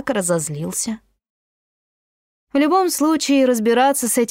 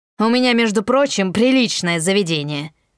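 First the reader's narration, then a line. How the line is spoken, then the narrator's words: Barked. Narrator (Russian): рявкнул он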